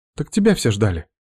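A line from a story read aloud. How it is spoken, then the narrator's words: Confused reply. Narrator (Russian): Все еще растерянно отвечает она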